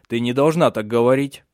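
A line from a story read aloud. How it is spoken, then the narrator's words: Irritated interruption. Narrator (Russian): прервал он ее раздраженно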